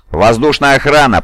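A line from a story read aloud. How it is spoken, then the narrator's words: Roared. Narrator (Russian): проревел он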